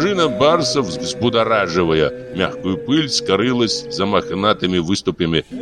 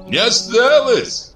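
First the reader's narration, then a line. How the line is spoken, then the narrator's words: Cheerful shout from crowd. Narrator (Russian): крикнул кто-то весело в толпе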